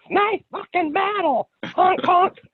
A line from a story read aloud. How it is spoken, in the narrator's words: just yelling to whomever with no context